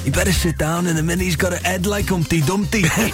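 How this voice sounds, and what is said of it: Imitates another person's voice. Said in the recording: “You do such a good impression.”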